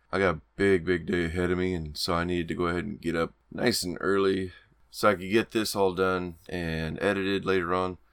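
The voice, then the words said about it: Gravelly, rougher voice than usual. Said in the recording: “can hear it in my voice ... I'm a little more gravelly than usual, but it's very early in the morning”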